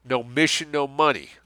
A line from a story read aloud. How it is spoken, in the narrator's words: Lessing snarled back